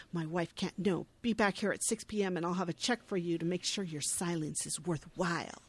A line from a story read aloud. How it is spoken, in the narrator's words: the husband hisses